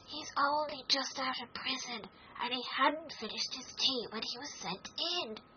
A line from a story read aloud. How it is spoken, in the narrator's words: Haya whispered to Alice